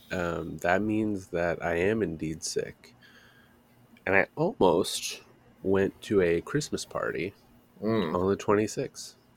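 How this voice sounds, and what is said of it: Stuffy-nosed, sick-sounding voice. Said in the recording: “my nose is stubby. You can hear it in my voice. ... I can hear it. Yeah, you sound like shit.”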